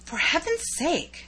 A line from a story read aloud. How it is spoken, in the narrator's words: whispered in an awed tone